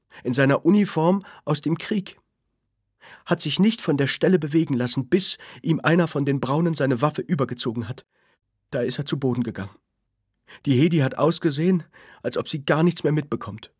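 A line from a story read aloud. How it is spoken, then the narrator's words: Mother calling out. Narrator (German): rief die Mutter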